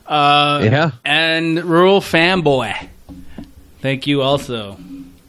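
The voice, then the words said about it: Attempted Maine accent. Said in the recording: “That was my attempt at a main accent ... I thought there was just something wrong with you there for a minute”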